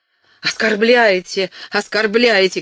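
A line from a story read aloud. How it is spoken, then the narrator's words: Shout. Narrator (Russian): крикнул герцог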